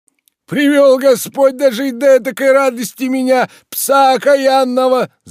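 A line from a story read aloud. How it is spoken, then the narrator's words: Wailing, half crying, half laughing. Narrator (Russian): завопил он, не то плача, не то смеясь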